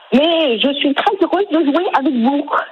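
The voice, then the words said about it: Imitated Québécois accent. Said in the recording (French): “imitation de Céline Dion ... J'imite l'accent québécois que je ne connais pas trop ... c'est pas mal du tout ... c'était pas parfait”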